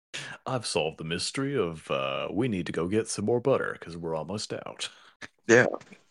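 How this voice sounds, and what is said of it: Film detective character impression, slightly deeper. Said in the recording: “that was the perfect Benoit Blanc impersonation. ... I'm just vaguely, vaguely deeper than usual.”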